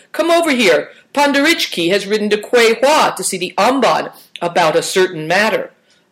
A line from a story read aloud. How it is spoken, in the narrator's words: shouted